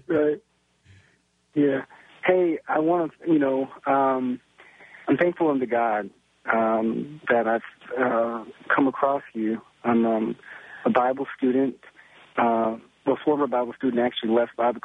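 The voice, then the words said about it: Tired, hoarse voice. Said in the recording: “You sound tired. ... I got a little horse in my throat.”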